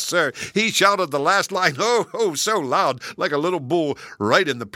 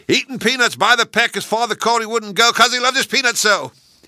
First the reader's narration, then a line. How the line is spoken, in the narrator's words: he was shouting right back at the spectacles